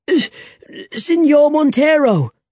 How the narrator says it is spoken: he cried

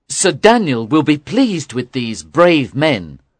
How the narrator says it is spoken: said Hatch

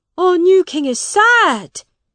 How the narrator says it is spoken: shouted one man

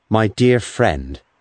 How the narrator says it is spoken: he said

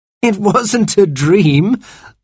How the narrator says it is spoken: laughed Cyril

